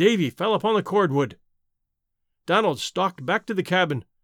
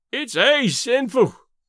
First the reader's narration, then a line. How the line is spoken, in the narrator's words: Davy moaned